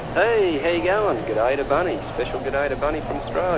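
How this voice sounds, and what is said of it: Australian accent. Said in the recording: “the guy with the Australian accent”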